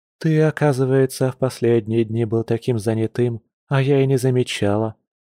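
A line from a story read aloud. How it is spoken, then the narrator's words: Soft, gentle. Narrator (Russian): мягко произнесла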